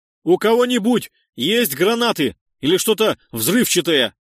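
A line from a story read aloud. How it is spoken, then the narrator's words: Loud question. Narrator (Russian): громко спросил я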